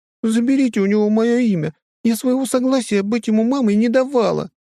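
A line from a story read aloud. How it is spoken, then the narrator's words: Sobbing. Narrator (Russian): всхлипывает та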